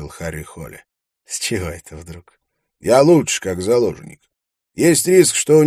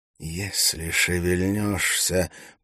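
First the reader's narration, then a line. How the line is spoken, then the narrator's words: Hiss close to ear. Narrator (Russian): прошипел Валентин над его ухом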